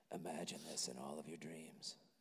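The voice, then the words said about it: Weird, creepy voice. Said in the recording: “I'm going to keep talking in this weird, creepy voice.”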